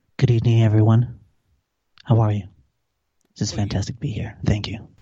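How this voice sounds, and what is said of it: Put-on sultry seductive voice. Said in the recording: “do the sexy voice”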